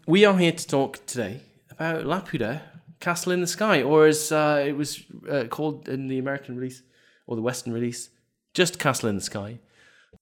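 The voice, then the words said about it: Voice sounds affected by illness. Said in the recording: “I'm on three a night at the minute, as you can probably tell from my voice.”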